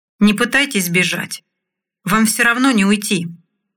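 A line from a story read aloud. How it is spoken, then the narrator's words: Calm voice. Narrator (Russian): спокойным голосом произнес Бармалей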